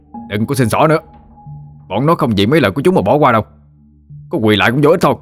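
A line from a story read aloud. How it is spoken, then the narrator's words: Harsh shout. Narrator (Vietnamese): nói như quát vô mặt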